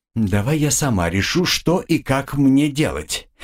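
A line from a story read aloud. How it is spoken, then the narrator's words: Suddenly angry request. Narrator (Russian): неожиданно зло попросила меня женщина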